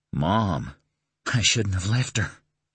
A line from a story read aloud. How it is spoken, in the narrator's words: he whispered